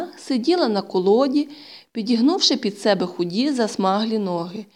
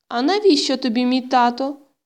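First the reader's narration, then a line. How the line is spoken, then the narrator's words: Sad, surprised question. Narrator (Ukrainian): сумно і здивовано запитала Тома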